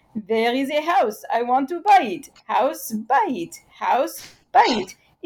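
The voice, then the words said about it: Put-on Israeli accent. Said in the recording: “the Israeli, in their Israeli accent, might say something like”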